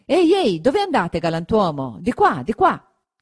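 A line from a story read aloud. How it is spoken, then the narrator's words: Shouted after someone. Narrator (Italian): Gridatogli dietro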